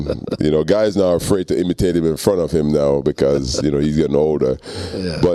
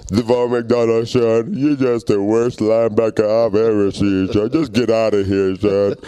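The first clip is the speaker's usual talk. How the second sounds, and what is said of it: Imitates another person's voice. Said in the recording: “that's my Lou Holtz impersonation ... That's a Lou Holtz. You can't play with him without imitating him.”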